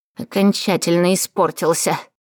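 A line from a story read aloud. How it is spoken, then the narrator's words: Snort. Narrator (Russian): фыркнула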